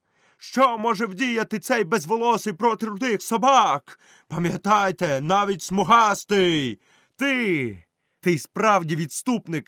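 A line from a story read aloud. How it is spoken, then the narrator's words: Shouted. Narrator (Ukrainian): крикнув Мауглі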